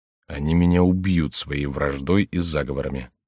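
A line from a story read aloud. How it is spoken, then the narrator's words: Quiet. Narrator (Russian): тихо прибавил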